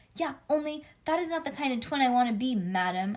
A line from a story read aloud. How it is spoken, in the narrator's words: I yelled